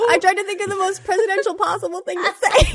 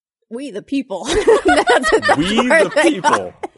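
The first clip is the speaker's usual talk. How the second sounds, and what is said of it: Imitates another person's voice. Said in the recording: “Do your best Obama voice ... more like an internet voice”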